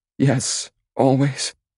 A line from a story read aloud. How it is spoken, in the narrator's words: she cries